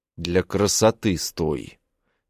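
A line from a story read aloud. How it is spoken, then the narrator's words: Through clenched teeth. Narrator (Russian): Цежу сквозь зубы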